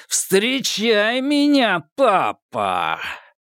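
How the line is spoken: Full-voiced shout. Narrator (Russian): Никита закричал во весь голос

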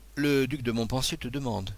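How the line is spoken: Plain. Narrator (French): me dit-il

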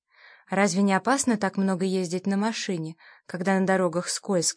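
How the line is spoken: Plain. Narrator (Russian): сказала я

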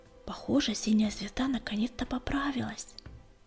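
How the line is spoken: Quiet. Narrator (Russian): песчаная буря тихо сказала

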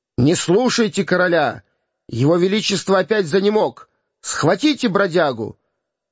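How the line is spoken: Shouting. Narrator (Russian): мнимый король прокричал

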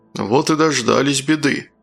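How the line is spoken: Gloomy. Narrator (Russian): мрачно сказал Великанов

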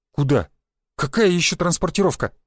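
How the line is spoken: Exclaiming. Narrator (Russian): воскликнул я

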